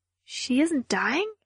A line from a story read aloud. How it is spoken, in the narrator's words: asked, my voice a murmur